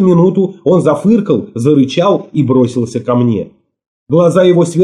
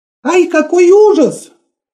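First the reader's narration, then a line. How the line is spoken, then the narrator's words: Startled cry. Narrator (Russian): вскрикнула Мот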